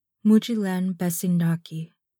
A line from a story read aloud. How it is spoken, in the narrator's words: Ellen murmurs